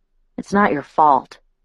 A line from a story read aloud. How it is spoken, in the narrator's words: I muttered